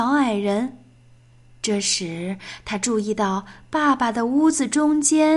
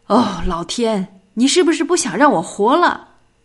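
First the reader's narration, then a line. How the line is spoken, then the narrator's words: Roaring, yelling. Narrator (Chinese): 他大吼大叫起来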